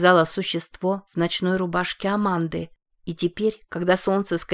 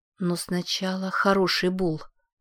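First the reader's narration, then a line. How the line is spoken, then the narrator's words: Mumbling. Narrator (Russian): пробормотала Лиззи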